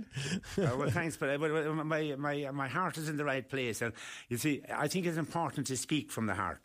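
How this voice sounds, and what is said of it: Irish accent. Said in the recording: “is he Irish? ... the accent”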